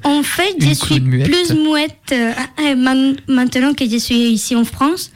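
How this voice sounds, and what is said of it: Foreign accent speaking French. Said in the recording (French): “cet accent ... avec mon accent, c'est pas facile de me faire comprendre”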